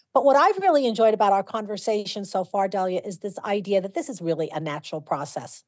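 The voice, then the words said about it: New York City accent. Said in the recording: “I'm a New York City kid too. You might have gotten from the accent.”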